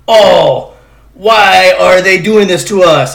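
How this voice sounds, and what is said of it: Put-on German accent. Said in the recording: “That's my German accent. It's pretty good. ... That was terrible.”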